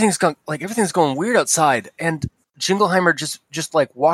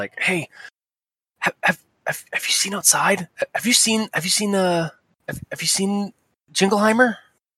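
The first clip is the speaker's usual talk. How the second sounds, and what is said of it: Whispering. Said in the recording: “he's whispering.”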